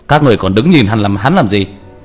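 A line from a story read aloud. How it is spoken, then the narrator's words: Monk shouting orders. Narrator (Vietnamese): Đại hòa thượng quát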